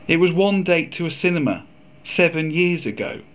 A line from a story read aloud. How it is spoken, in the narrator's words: I said